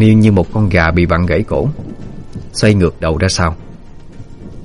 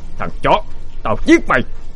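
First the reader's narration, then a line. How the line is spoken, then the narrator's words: Yelling while fighting. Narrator (Vietnamese): Vừa đánh vừa hét lên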